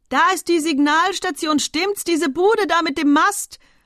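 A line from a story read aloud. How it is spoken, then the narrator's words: Bellowed. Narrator (German): brüllte Monsieur Chabre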